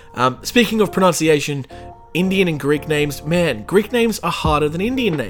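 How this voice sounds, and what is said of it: Usual voice. Nothing is said of it.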